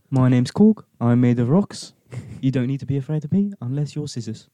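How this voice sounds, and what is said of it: Imitates a film character's accent. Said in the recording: “I used to do his accent so well.”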